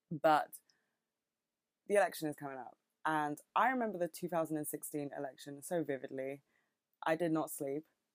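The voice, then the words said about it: British accent. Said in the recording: “I'm not American, in case you couldn't fucking tell. I have a very British accent, I think.”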